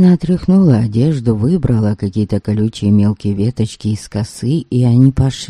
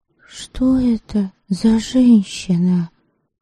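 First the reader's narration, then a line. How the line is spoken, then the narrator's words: Whispered question. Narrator (Russian): Шепотом спросила она Ольгицу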